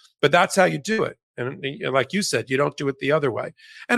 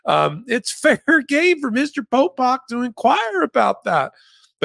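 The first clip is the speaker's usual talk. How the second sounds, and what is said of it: Imitated Southern accent. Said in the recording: “This guy had a Southern accent”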